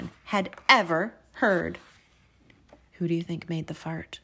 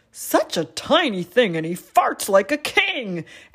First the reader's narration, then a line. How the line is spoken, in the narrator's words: The hippopotamus exclaimed